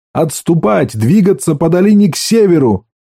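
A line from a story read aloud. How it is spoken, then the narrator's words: Shouting. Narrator (Russian): Джосс ... закричал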